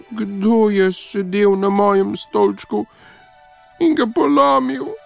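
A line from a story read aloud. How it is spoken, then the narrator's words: Thin mouse-like squeak. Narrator (Slovenian): Miško pa je zacvilil tanko kot miš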